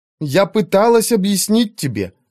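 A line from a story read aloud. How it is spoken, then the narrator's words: Indignant. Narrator (Russian): возмущенно сказала она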